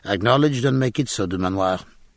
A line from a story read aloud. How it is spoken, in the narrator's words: said the Captain